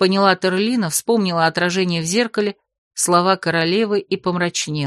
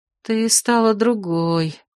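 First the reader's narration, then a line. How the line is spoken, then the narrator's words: Sad sigh. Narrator (Russian): печально вздохнула камеристка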